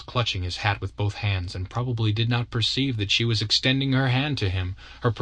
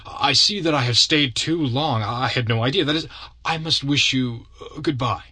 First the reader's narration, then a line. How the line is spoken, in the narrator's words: stammered Brontaine